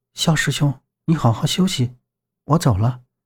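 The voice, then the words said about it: Soft, quiet voice. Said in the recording (Chinese): “静怡小声道”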